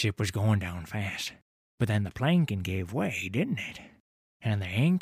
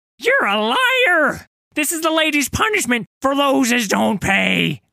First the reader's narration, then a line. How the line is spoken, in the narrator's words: screaming